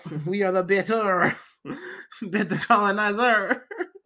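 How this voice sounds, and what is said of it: Put-on French accent. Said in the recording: “That was a beautiful French accent.”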